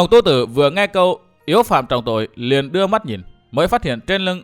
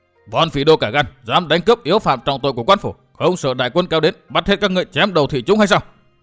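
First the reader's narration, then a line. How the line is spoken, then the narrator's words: Charging group's loud shout. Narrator (Vietnamese): đội ngựa đất từ phía sau xông đến cùng quát to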